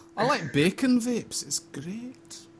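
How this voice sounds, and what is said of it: Bad put-on Scottish accent. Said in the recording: “Bad accent. ... I really shouldn't do a Scottish.”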